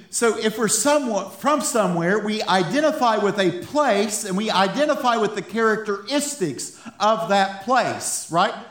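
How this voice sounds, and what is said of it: Appalachian accent with Texan influence. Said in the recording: “We laugh about my accent sometimes ... I'm Appalachian. I identify with the accent from Appalachian. ... it's like this weird Texan Appalachian type thing.”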